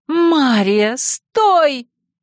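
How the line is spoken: Frightened exclamation. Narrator (Russian): испуганно воскликнула Василиса

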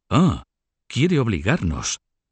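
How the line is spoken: Exclaimed, personally offended. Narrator (Spanish): exclamó Felipe de Valois, que tomaba ahora el asunto como personal

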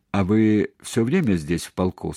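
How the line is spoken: Plain. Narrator (Russian): спросил Сенцов

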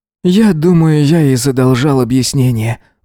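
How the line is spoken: Sigh. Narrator (Russian): вздохнул Эзра

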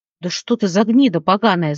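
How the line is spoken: Snarl. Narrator (Russian): зарычал второй

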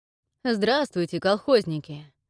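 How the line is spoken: Good-natured greeting, chuckle. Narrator (Russian): Добродушно поздоровался с нами стражник и хохотнул

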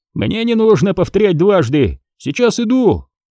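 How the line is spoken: Excited shout. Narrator (Russian): азартно крикнул Дож

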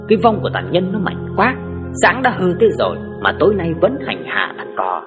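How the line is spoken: Muttering. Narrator (Vietnamese): bố lẩm bẩm

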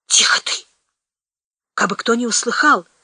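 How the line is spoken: Hoarse wheeze. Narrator (Russian): сипел тот

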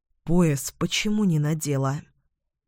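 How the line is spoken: Whisper. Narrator (Russian): Эдвин прошептал

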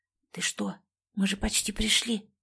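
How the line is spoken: Indignant whisper. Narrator (Russian): шепотом возмутилась я

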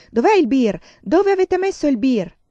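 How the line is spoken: Shouting. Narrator (Italian): mio padre andava urlando per la casa

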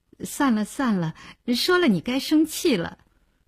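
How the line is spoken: Hesitant, smiling. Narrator (Chinese): 林星欲言又止，笑笑说

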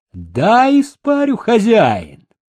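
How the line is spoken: Shouted. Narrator (Russian): Человечек крикнул

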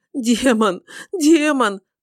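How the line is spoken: Sobbing, repeating. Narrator (Russian): принялась, рыдая, твердить она

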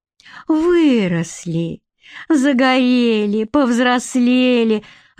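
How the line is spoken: Cheerful chirping mother. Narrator (Russian): радостно щебетала мама

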